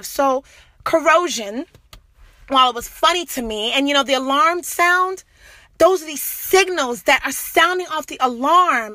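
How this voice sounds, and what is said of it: Passionate yelling. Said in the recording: “I'm sorry that I'm yelling, guys. I guess I'm just getting so passionate here, so freaking passionate.”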